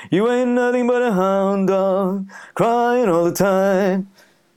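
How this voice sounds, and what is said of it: Nasal crooner-style rock and roll singing. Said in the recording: “the sort of nasal, like Elvis ... my impersonation of Elvis ... a bit nasally, in between the mouth and the nasal passage”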